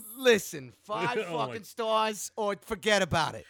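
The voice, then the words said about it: Put-on New York accent. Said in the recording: “New York accent”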